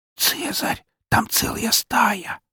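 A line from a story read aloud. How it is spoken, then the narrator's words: Whispered. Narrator (Russian): прошептала Фокси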